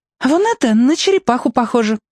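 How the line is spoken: Exclaim. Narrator (Russian): воскликнула

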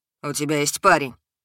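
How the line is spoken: Irritated. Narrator (Russian): Раздраженно сообщил Лёша

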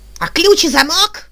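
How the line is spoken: Furious squeal. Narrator (Russian): взвизгнул Лоегайре, окончательно выходя из себя

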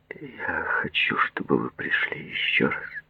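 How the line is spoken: Male mumble. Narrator (Russian): промямлил он

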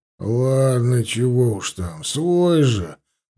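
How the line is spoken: Grumbled. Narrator (Russian): проворчал унтер

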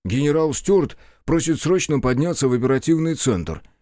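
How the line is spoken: Slightly surprised. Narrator (Russian): произнес Филипп, несколько удивленный раздраженным тоном агента

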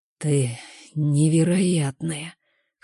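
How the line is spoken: Hoarse whisper. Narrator (Russian): хрипло шепчет он

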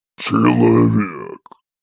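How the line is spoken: Irritated low contemptuous growl. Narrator (Russian): Раздраженно рыкнул демон низким инфернальным голосом, не скрывая презрения

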